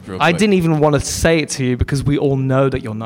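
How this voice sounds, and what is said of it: British accent, authoritative. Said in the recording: “in your accent ... So much more meaningful because he's British ... It feels like a British mirror ... So much authority ... British like accent gives me so much gravitas”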